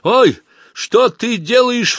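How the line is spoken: Sharp cry. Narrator (Russian): вскрикнул он

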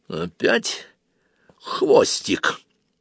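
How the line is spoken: Quiet, through clenched teeth. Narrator (Russian): процедил он тихо

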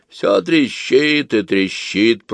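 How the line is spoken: Old woman's toothless mumble. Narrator (Russian): прошамкала старушка

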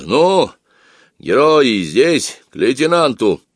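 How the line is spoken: Loud and cheerful. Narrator (Russian): бравый старшина и сказал громко и весело

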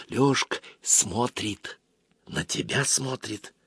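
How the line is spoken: Sudden whisper. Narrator (Russian): Аглая вдруг зашептал

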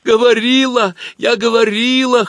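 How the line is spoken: Whimpering. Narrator (Russian): хныкала Галка

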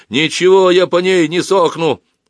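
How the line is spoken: Fierce shout. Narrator (Russian): закричал он свирепо

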